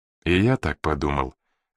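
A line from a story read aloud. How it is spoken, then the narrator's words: Gloomy confirmation. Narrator (Russian): мрачно подтвердил Макдоналл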